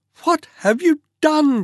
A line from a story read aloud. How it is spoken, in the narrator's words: cried